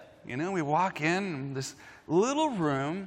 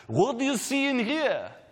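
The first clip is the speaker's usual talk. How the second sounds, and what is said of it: Thick Hebrew German accent. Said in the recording (Dutch): “he has this thick, like, Hebrew German accent.”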